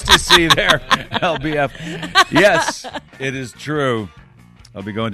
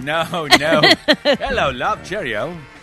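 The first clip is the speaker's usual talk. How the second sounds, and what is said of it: Put-on British accent, Cary Grant-like. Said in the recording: “working on my accent ... a slightly British accent ... You got a little Cary Grant going on with your accent ... Pretty suave”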